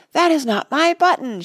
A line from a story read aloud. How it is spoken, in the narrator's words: shouted Toad